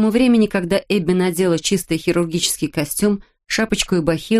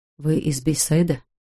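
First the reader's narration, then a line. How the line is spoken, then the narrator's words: Whispered question. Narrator (Russian): шепотом спросил анестезиолог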